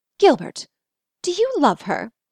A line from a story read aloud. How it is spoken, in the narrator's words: the energy of her sharply whispered question